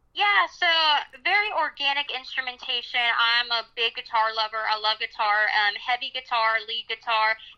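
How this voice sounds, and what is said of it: Southern American accent. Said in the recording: “your pretty accent ... we got the Southern going on in here”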